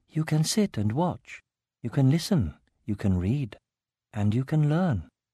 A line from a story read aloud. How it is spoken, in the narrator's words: She answered just as softly